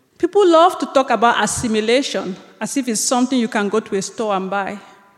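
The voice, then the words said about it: Non-native English accent. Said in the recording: “the way I pronounce certain words ... This accent is not going anywhere.”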